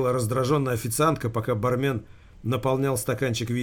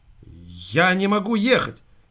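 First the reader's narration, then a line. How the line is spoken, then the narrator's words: Hysterical outcry. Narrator (Russian): истеричным тоном выкрикнула официантка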